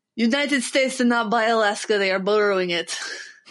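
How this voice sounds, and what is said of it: Put-on Russian accent. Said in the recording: “my favorite accents to do is the Russian accent.”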